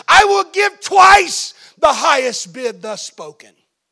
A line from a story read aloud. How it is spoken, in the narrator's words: raised his voice loudly and he said